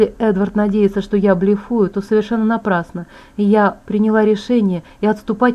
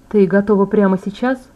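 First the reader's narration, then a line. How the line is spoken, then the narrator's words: Plain. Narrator (Russian): спросил Эдвард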